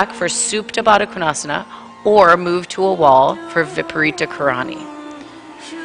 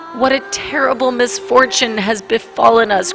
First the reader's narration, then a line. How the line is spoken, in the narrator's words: cried the wife